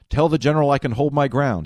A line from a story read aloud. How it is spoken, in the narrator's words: he said